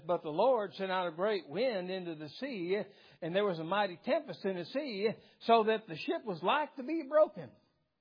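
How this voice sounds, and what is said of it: Exaggerated Southern drawl. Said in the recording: “Because of the southern drawl. ... Does that sound southern to you? It sounds southern to me.”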